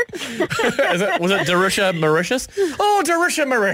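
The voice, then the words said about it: Put-on Irish accent. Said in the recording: “So imagine that in an Irish accent. Oh, it'd be brilliant.”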